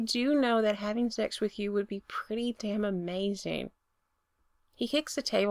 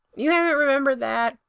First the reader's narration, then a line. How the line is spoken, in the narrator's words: Brendan yells back, his voice muffled